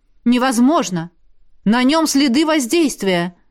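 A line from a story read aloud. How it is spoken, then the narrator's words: Exclamation. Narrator (Russian): воскликнула Элисандра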